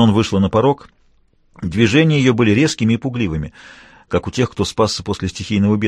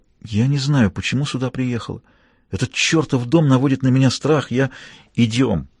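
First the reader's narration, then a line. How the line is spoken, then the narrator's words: Whispered. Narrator (Russian): Она прошептала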